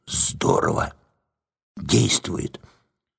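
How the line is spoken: Quiet whisper. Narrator (Russian): не удержался и тихо прошептал соседу

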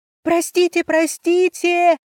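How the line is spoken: Screaming at full volume. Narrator (Russian): орала я во все горло

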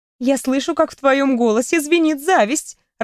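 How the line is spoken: Bursting into laughter. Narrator (Russian): расхохоталась я

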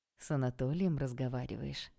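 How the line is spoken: Plain. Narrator (Russian): спросил папа

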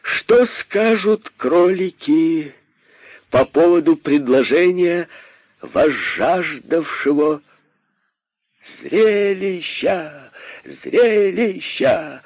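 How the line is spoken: Joyful crowd shouting. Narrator (Russian): закричали кролики радостно

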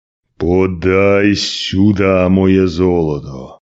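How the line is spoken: Angry growl. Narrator (Russian): прорычал Василий

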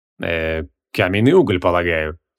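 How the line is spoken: Dry. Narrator (Russian): сухо ответил глава совета

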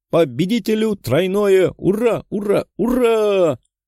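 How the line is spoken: Joyful cry, young woman. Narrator (Russian): вскрикнула девушка, радуясь

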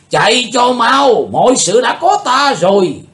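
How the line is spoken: Commanding shout. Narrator (Vietnamese): Tà thần lỗ đạo chợt thấy Chí Tôn vượt ra ngoài vòng kiềm tỏa của bọn cao thủ U Minh Cung liền quát lên

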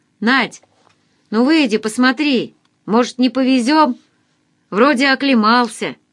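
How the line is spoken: Young man shouting. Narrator (Russian): Парень кому-то крикнул

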